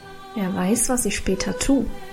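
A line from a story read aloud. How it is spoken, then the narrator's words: Mysterious murmur. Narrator (German): murmelte Karl geheimnisvoll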